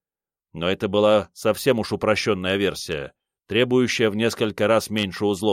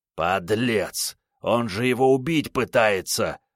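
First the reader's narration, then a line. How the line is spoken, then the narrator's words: Angry growl. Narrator (Russian): зарычал рассерженный Рю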